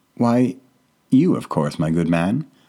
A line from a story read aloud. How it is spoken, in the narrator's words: he said in a way too happy tone